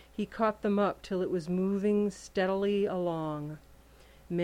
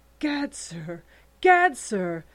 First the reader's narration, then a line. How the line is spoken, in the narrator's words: sputtered the Skookum Bench King